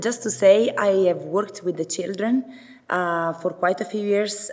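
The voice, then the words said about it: Italian accent, voice affected by cold. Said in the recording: “Can you still bear with Italian accent? ... and also with my voice, because I got a cold”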